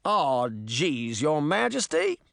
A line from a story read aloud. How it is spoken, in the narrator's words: the man cried in a thick southern accent